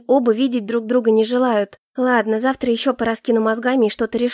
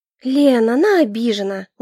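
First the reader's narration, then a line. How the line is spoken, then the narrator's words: Tired reminder. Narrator (Russian): устало напомнила я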